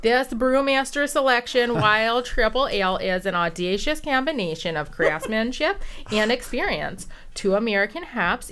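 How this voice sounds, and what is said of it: Put-on Minnesota accent. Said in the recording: “I was going to say a Minnesota accent. I can do that. I can read the whole back of that thing in a Minnesota accent”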